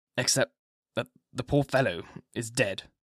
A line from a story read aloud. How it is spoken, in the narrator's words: said hoarsely, as he bowed his head, and moistening his lips with his tongue, added